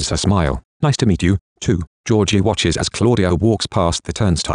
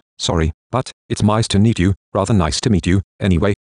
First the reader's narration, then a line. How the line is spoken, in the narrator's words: he says nervously